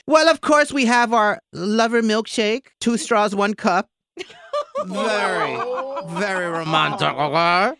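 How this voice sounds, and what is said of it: Put-on French accent. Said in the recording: “It's French, as you can tell by my accent, obviously.”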